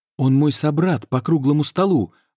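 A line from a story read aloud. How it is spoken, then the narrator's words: Exclaimed. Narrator (Russian): воскликнул Ланселот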